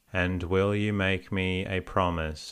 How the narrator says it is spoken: asked Westy

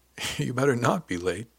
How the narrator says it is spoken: Diane said with a laugh

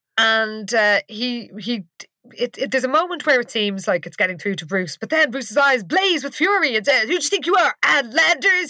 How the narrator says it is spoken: He yelled

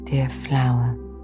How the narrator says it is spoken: the butterfly whispered low

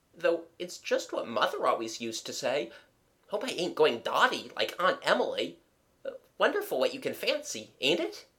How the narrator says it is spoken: she murmured

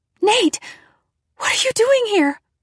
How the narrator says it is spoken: cried

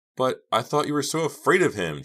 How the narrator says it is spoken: Jake cried

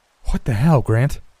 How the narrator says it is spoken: I asked, gasping for breath

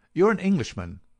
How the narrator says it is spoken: I said

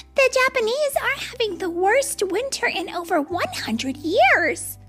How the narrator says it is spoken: they chirped

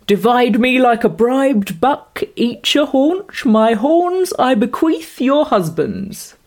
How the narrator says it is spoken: he says gaily

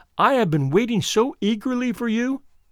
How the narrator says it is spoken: she cried

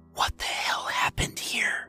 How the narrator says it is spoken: whispered Peter

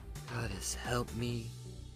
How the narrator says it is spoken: muttered under her breath

